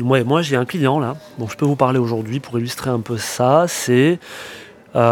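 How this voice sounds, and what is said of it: Usual voice. Nothing is said of it.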